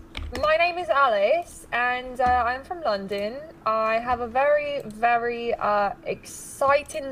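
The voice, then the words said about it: Put-on British accent. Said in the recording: “Give us your best British accent.”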